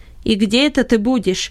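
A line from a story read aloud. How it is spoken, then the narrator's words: Sharp question. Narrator (Russian): резко спросил Бенет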